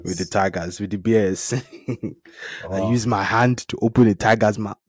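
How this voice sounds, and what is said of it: Non-American accent. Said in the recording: “people can pick that from my accent ... is not from America”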